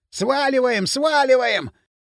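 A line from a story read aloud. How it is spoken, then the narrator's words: Hoarse yelling. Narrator (Russian): хрипло орал бивень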